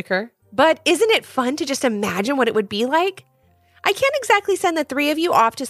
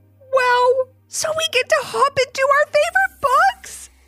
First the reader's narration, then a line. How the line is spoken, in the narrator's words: screamed Ivy in a whisper